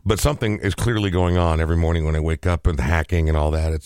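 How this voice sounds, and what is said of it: Hoarse, nearly lost voice. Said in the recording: “my voice is virtually gone, has been all week. Today it actually sounds better than it has the last 5 days.”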